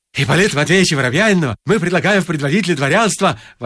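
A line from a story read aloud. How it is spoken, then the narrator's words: Young men exclaiming. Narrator (Russian): воскликнули молодые люди Никеша и Владя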